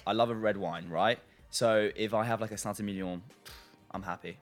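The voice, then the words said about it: French accent. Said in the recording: “I'm French ... You love the accent.”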